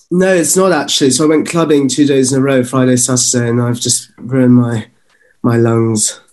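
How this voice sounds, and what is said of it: Slightly hoarse, sore-throated voice. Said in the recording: “I've got a bit of a sore throat. Can you hear it? ... A little bit.”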